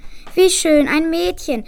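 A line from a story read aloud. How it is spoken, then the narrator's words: Mother sighing. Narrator (German): seufzte die Mutter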